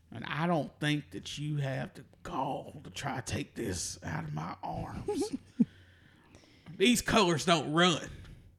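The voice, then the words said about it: Put-on Southern white American accent. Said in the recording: “We're pretty good at this white accent shit ... From Newmarket, Alabama.”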